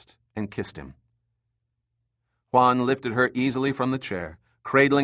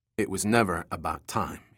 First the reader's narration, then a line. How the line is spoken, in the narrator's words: whispered in her ear